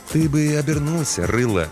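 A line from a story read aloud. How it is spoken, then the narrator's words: Soft advice. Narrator (Russian): мягко посоветовал детине смотритель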